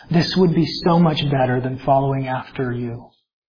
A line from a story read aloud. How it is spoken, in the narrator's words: the deceiver comes whispering to us